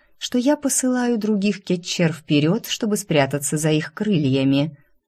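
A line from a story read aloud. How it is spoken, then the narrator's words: Soft, insinuating. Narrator (Russian): вкрадчиво уточнила Кизония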